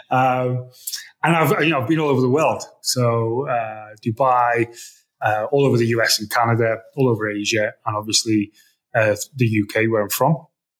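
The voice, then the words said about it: Northern English accent. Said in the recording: “accent isn't too bad. I've tried to shake off this Northern England accent”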